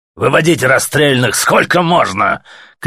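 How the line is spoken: Faint shout over ringing. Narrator (Russian): крикнул еле-еле сквозь звон майор

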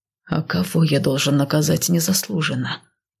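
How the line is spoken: Somewhat rough. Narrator (Russian): Немного грубо произнес

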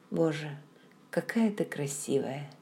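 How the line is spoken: Quiet. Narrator (Russian): тихо сказал

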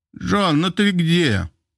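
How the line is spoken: Distant shout, unfamiliar voice. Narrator (Russian): От двери раздался крик незнакомым голосом

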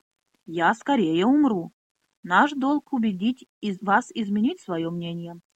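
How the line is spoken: Calm, friendly. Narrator (Russian): спокойно и даже дружелюбно проговорил мастер-арфист

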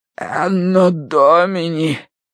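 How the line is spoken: Cleric croaking hoarsely. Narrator (Russian): прохрипел клирик

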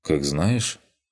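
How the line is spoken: Calm reply. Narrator (Russian): спокойно ответил

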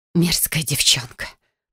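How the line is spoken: Hissed, mother. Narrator (Russian): прошипела мама

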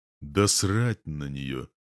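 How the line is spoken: Muffled reply. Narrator (Russian): глухо отвечаю

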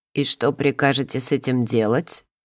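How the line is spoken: Cold inquiry. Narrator (Russian): холодно осведомился повелитель

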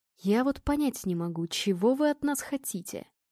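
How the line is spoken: Whisper. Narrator (Russian): прошептал он

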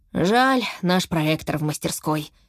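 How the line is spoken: Heavy sigh. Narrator (Russian): тяжело вздохнул папа

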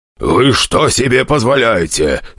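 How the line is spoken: Growling. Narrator (Russian): рычала она

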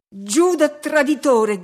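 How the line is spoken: Shouted. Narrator (Italian): gridai

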